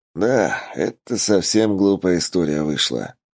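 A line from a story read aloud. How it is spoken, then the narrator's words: Sigh. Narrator (Russian): вздохнул Филин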